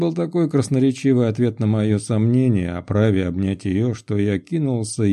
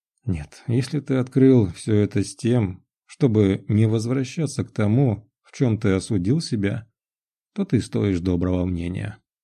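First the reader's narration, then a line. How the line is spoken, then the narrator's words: Calm, even voice after pause. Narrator (Russian): помолчала минуту, а потом начала спокойным и ровным голосом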